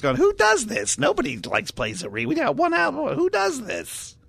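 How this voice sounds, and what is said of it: Imitates another person's voice. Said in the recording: “That's my Ross impersonation.”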